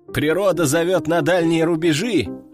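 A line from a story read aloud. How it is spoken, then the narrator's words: Group laughing loudly. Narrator (Russian): расхохотались они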